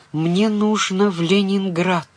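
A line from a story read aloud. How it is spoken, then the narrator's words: Whisper. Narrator (Russian): прошептала Таня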